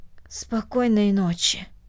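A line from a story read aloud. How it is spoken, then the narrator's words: Hoarse voice. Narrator (Russian): хрипло произнесла Корнели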